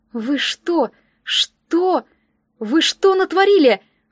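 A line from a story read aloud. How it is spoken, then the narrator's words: Confused muttering. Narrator (Russian): растерянно пробормотала я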